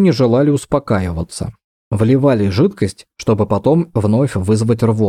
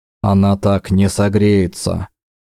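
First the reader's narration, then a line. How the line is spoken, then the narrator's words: Tired, curt remark. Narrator (Russian): устало бросил Дакар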